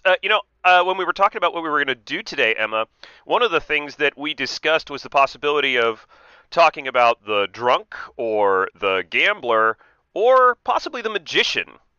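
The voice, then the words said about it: Voice recovering from illness. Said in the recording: “As you can hear, my voice is recovering a little bit. I've been a little under the weather”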